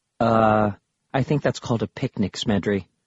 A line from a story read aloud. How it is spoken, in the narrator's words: Bastille said flatly